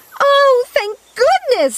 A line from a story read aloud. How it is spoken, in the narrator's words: she shouted